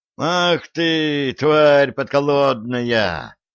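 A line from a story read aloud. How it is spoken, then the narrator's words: Howl while tumbling. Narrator (Russian): Уже совершенно по-русски взвыл кувыркнувшийся по земле хазарин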